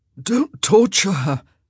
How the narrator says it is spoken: came a croak from the bed

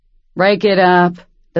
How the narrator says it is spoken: the huge bartender said flatly

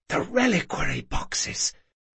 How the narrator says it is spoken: Sabatha whispered

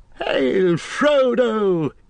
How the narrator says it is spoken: cried

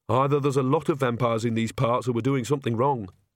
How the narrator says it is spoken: said Agnes flatly

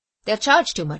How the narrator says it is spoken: said Tom

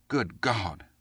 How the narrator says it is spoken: the youth grumbled

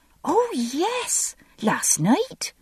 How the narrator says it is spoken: the kitchen maid said eagerly

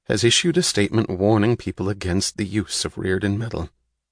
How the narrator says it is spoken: he said quietly

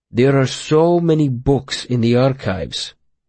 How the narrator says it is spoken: Will said slowly

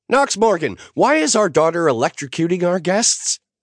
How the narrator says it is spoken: Naomi shrieked

